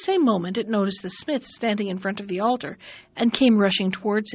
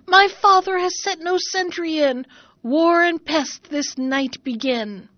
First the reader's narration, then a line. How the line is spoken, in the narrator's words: Then it howled and shrieked again